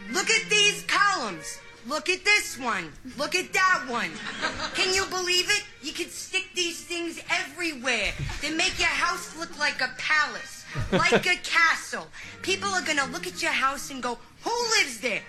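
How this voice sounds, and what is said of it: Exaggerated, poor New Jersey accent. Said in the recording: “Scarlett Johansson to have a terrible Jersey accent”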